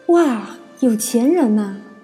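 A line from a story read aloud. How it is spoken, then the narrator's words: Amazed exclamation. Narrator (Chinese): 不由得惊叹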